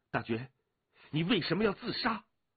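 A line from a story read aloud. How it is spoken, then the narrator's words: Faint voice turning urgent. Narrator (Chinese): 那淡淡的声音也骤然急了起来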